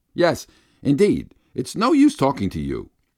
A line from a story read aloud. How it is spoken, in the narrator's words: shouts angrily